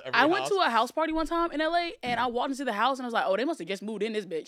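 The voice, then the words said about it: Country accent. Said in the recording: “is your accent ... I'm a little country”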